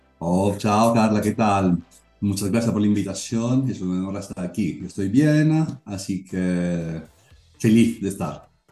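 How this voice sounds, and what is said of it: Italian accent speaking Spanish. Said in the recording (Spanish): “es italiano, ahí notan su acento. ... es. muy, muy particular”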